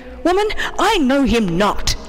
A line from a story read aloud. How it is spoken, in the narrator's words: Peter felt compelled to answer and said angrily